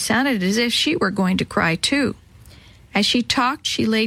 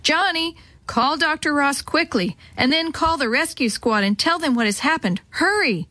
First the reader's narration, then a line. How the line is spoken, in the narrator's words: Mother shouted